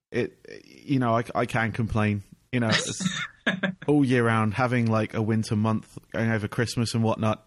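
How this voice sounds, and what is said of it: English accent. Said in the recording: “as you can tell from my accent, I'm from England”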